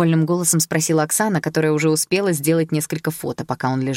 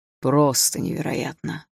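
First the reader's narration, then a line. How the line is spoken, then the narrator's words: Incredulous mutter. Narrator (Russian): пробормотал он, все еще не веря, что подписался на это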